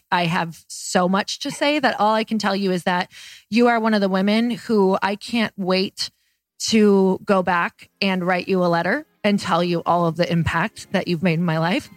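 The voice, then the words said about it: Emotional, choked-up voice. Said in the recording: “I'm totally getting choked up.”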